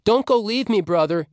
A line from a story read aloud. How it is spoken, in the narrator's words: cried